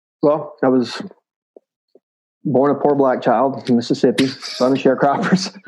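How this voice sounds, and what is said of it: Strong Southern Mississippi accent. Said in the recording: “Grew up very poor in South Mississippi. ... Can't you tell from my outrageous accent?”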